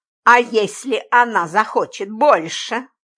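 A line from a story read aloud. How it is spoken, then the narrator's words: Spiteful question. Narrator (Russian): злобно спросил Джимми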